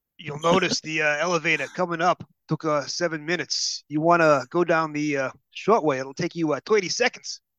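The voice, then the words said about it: Exaggerated bad New York accent. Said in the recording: “really bad accent ... my native accent is a really bad accent ... the same accent as the as the uh, elevator operator from the Chase ... never afraid to try a bad accent ... all New Yorkers sound exactly like that”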